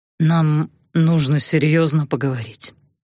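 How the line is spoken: Hoarse. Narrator (Russian): сказал он хрипло

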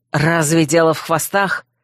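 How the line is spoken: Irritated grumble. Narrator (Russian): раздраженно буркнул Койл

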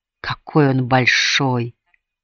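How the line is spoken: Whispered. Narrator (Russian): прошептала Майка

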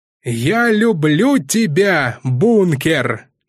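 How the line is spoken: Loud shout, man. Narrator (Russian): громко крикнул мужчина

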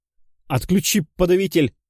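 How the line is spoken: Nervous shout. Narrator (Russian): закричал самый нервный

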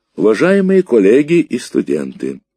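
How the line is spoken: Loud formal opening. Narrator (Russian): громко начал профессор

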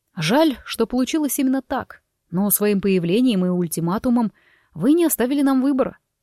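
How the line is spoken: Calm. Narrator (Russian): спокойно произнес Форест

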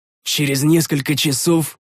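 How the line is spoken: Angry exhale. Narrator (Russian): Зло выдохнул я

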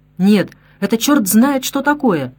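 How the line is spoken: Indignant man exclaiming. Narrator (Russian): С возмущением воскликнул мужчина

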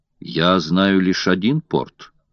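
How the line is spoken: Calm reply. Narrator (Russian): спокойно ответил Филиас Фог

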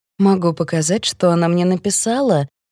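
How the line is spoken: Plain. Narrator (Russian): говорит она

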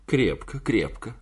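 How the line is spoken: Laughing reply. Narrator (Russian): ответила она, смеясь

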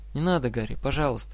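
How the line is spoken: Soft. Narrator (Russian): мягко сказала она

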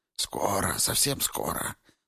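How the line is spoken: Mumbling. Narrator (Russian): забормотал он

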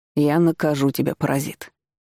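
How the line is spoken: Heavy sigh. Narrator (Russian): тяжело вздохнул Даниил

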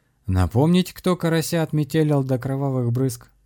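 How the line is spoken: Guffawing. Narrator (Russian): захохотал шаман

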